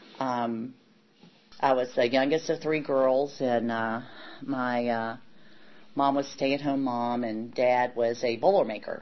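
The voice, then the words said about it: Kentucky accent. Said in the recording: “the accent you hear is Kentucky”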